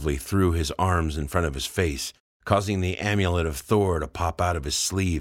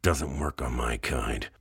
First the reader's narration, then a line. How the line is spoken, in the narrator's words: muttered Mr